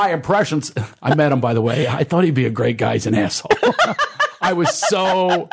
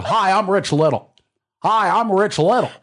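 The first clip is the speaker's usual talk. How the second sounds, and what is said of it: Imitates another person's voice. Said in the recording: “I could do an impression of”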